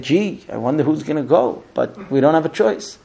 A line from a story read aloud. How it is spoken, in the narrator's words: the people are starting to grumble and they say